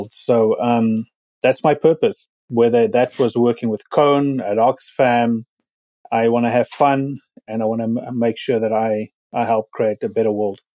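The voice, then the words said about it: South African accent. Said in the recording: “The accent, as everybody will hear from now, and those who know me, South African”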